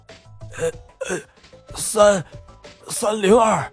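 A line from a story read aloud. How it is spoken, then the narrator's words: Hoarse man's voice. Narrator (Chinese): 大汉的声音已经沙哑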